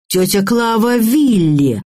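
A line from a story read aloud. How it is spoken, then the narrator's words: Yelling. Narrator (Russian): заорал Михаил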